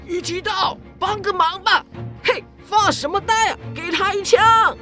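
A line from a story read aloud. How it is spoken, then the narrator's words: Shouting. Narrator (Chinese): 这么一喊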